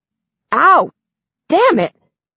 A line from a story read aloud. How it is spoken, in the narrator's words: he yelps